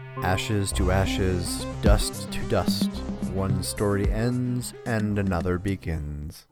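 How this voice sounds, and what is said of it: Super deep movie announcer voice. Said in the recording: “super deep voice movie announcer? Kind of like my Brit Hume impression.”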